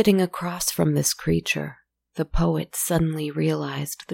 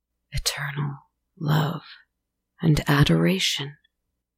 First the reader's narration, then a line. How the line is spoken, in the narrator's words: he whispered